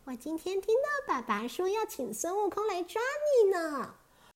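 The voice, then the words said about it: Imitated little girl's voice. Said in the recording (Chinese): “孙悟空装成小姑娘的声音说”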